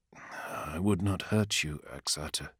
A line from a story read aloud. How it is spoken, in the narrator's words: Lorgar said quietly